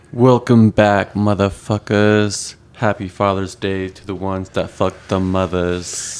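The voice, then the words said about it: Put-on sexy announcer voice. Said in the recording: “Sexy voice. ... Berry ass white voice.”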